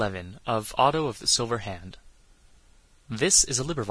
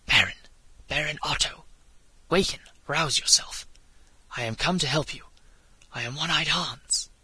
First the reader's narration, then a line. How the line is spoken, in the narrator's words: a voice whispered in his ear